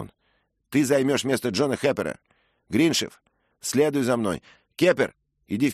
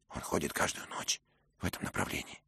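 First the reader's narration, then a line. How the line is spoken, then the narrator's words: Whispered question. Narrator (Russian): шепотом спросил Дик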